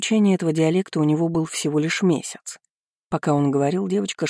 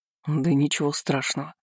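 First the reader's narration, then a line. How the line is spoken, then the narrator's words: Halting mutter in foreign dialect. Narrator (Russian): пробормотал адмирал, с трудом составляя предложение на местном наречии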